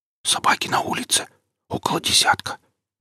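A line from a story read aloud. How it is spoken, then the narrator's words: Young man's whisper. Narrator (Russian): прошептал парень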